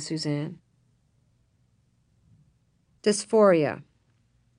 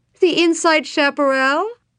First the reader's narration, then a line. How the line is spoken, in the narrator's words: cried Sven